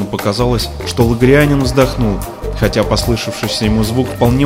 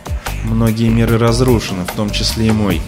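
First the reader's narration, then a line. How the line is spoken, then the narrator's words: Gloomy. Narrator (Russian): мрачно осведомил Антон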